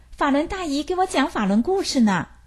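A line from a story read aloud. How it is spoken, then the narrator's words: Loud answer. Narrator (Chinese): 她高声回答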